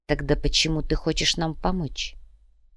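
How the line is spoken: Barely audible question. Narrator (Russian): едва слышно спросил Треми

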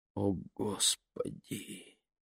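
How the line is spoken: Whisper. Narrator (Russian): прошептала

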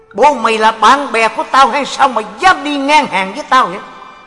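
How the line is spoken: Angry glaring shout. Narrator (Vietnamese): ông liền trợn mắt quát

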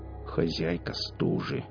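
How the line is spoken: Grumbled. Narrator (Russian): проворчал он

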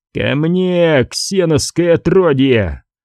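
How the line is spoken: Roaring. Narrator (Russian): взревел он

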